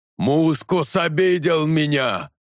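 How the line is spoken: Roared. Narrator (Russian): проревел Талос

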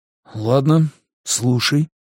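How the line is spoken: Unexpectedly calm. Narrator (Russian): неожиданно спокойно сказал он

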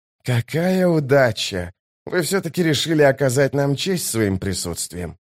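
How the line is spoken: Barely audible sigh. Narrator (Russian): Итковиан еле слышно вздохнул

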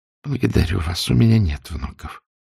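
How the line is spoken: Quiet reply. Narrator (Russian): тихо ответила

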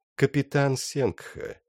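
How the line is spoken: Melodic voice. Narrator (Russian): сказал он своим мелодичным голосом

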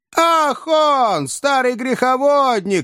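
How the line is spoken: Unknown voice shouting. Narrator (Russian): кричал чей-то голос

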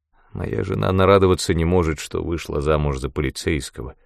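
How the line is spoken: Gloomy. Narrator (Russian): мрачно сказал

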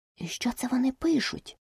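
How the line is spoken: Whispered question. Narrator (Ukrainian): пошепки спитала Аліса у Грифона

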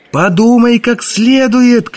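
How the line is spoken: Shouted after someone. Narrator (Russian): крикнул Язон ему в спину

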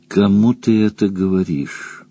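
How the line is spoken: Sighing stallion. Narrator (Russian): вздохнул стоящий в паре с нею жеребец

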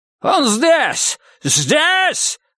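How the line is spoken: Yell. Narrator (Russian): заорал кто-то

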